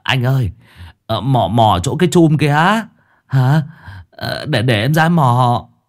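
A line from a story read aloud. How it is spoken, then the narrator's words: Frightened, on verge of tears. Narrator (Vietnamese): thằng Bảy nhớ đến chuyện hôm qua bị con quỷ nó dìm thì mếu máo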